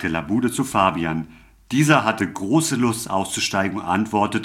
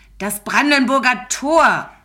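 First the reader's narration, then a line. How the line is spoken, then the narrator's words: Tearful screaming heavyset woman. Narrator (German): schrie die dicke Dame, und Tränen füllten ihre Augen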